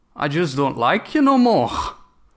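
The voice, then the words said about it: Put-on foreign accent quoting film line. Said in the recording (Dutch): “In dat lekkere accent.”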